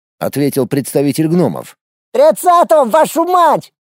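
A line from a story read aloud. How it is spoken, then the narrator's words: Goblin shouting. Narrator (Russian): крикнул гоблин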